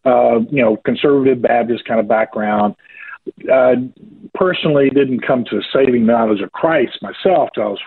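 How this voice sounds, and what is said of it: Southern US accent, rural Georgia. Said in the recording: “born and raised here in a state called Georgia ... southeast of the United States uh, rural part of the country ... very southerner ... You probably pick that up in my accent a little bit ... Yeah, I can pick that up a bit”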